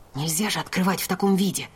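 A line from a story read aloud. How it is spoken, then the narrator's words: Hiss. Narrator (Russian): прошипела я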